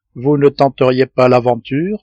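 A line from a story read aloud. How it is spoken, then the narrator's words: Plain question. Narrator (French): demanda le reporter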